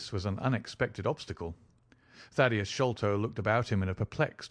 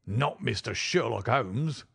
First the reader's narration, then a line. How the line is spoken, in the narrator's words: roared the prize fighter